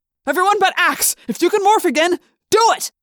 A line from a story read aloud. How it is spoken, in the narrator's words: Jake yelled